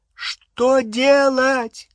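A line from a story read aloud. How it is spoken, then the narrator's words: Shouting over roaring flames. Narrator (Russian): крикнула Гермиона через гудение пламени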